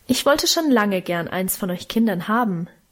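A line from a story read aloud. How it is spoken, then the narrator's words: Plain. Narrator (German): antwortete sie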